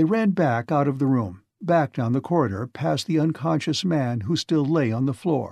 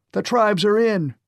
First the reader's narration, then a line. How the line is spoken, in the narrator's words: shouted Sweetbriar